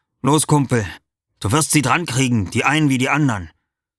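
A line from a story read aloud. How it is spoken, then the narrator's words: Encouraging call. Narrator (German): Nur Clusio rief mir manchmal ermunternd zu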